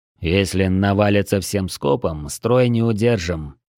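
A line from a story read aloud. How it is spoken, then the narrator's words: Grim. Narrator (Russian): мрачно подвел итог Дрой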